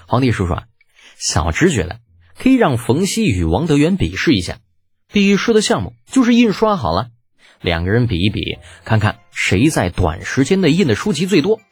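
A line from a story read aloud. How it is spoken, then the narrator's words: Smiling reply. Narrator (Chinese): 李浩笑着答道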